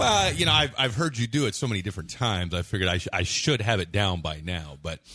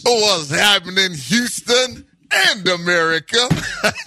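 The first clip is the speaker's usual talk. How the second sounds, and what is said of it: Impression of Henry Thomas. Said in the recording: “my Henry Thomas impersonation ... It was pretty decent. Pretty decent.”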